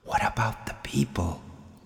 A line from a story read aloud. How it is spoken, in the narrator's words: the voice whispered again